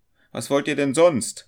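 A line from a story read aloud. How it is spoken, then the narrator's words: Student calling out. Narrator (German): rief der Student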